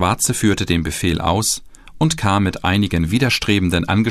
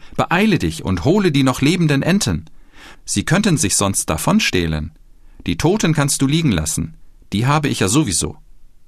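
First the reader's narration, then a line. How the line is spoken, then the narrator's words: Master calling out. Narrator (German): rief der Meister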